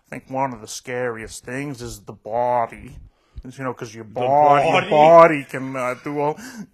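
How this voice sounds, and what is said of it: Weird religious-sounding Canadian accent impression. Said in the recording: “he's got a weird religious accent. He's Canadian”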